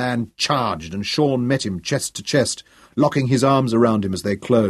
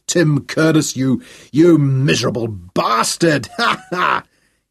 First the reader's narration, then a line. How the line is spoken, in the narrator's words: he roared in laughter and in pain